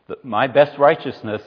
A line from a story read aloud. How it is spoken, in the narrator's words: Isaiah says